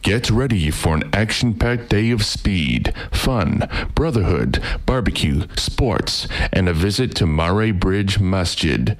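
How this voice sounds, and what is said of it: Announcer-style radio voice. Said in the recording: “I'll read this in my radio voice”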